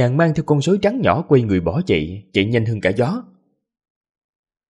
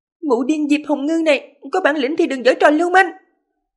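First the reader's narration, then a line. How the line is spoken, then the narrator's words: Angry loud reply. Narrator (Vietnamese): Đường Tiểu Đường không khỏi rùng mình một cái, phẫn nộ lớn tiếng trả lời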